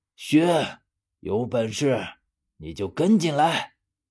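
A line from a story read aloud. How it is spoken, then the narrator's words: Distant, from deep below. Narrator (Chinese): 我听见他的声音从很深的地方传出来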